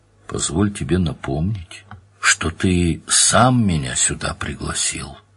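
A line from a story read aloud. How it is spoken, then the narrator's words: Gentle. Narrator (Russian): сказал Данил, как мог мягко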